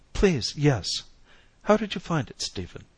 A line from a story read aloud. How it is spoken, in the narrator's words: his voice was quite steady